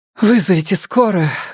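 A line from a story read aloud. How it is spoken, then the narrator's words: Breathless exhale. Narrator (Russian): выдохнул Робин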